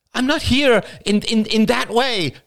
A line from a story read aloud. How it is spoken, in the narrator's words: exclaimed Rachel